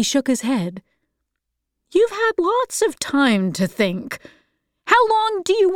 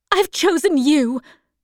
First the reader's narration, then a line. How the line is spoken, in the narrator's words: she cried